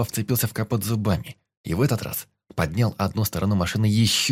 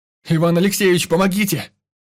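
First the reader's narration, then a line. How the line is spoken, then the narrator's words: Desperate shout. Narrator (Russian): кричал тот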